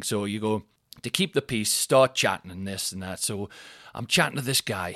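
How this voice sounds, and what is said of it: Newcastle (Geordie) accent. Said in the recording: “I'm from Newcastle. He's not understanding my accent whatsoever.”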